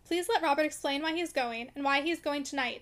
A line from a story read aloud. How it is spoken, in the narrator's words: she called out